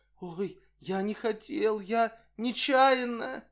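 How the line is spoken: Frightened plaintive mumbling. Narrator (Russian): Бледный как полотно, охваченный желанием убежать, спрятаться, он жалобно забормотал

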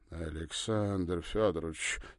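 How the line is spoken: Embarrassed drawl. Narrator (Russian): смущенно протянул Ракелов

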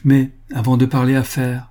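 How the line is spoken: Cheerful. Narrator (French): ajouta-t-elle gaiement

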